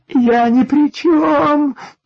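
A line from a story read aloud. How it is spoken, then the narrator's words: Thin frightened whine. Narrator (Russian): тоненько заскулил несчастный железнодорожник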